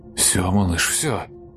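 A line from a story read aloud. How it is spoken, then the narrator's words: Incoherent muttering. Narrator (Russian): Бессвязно бормотал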